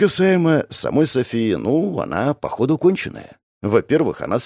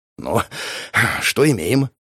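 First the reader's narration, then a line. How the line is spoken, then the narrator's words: Exhaled. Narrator (Russian): выдохнул я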